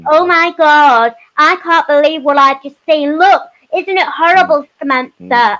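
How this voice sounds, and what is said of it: Put-on accent. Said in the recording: “I don't know why I'm doing that accent”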